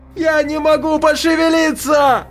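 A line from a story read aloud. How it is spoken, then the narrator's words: Hysterical scream. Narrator (Russian): Катя кричала, казалось, в истерике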